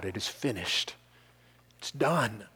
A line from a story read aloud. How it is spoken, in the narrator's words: Christ cries out